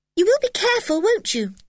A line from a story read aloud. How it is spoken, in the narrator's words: said Anne, anxiously